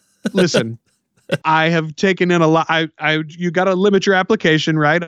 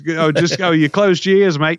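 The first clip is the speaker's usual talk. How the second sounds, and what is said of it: Put-on Australian accent, not great. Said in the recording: “A bad accent. A lot better than Dave Jackson's ... Australian accent that I'm not terrible ... I can totally pull off Australian accent”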